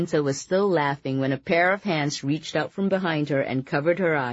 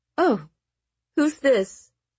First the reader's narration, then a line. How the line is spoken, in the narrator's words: Araminta giggled